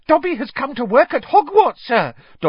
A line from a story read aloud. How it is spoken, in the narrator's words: Dobby squealed excitedly